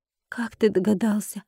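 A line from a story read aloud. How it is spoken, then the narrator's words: Dejected question. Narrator (Russian): упавшим голосом спросила я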